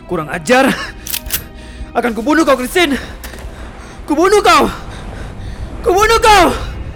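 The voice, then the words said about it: Loud angry shouting. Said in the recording (Indonesian): “teriakanmu yang berisik ini”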